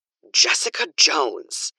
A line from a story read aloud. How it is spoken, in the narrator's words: Karen hisses